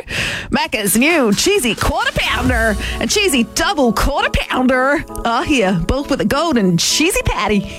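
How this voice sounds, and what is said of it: Mixed American-Australian accent. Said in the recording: “a bit of a mixed accent, a bit of an American slash Australian accent. I don't know what part of America this is”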